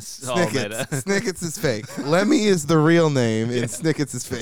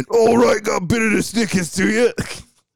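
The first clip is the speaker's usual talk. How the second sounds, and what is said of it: Bad British working-class accent. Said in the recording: “my terribly bad British ... accent ... Like dock workers, longshoremen”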